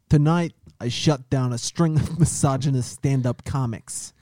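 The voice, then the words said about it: Put-on Boston accent. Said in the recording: “You read in your Boston accent, please.”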